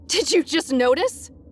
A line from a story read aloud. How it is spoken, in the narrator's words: snapped hysterically